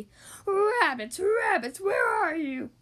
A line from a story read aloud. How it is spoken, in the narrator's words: he howled